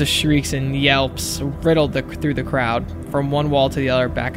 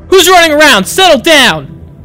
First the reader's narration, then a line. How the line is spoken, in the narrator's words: someone hollered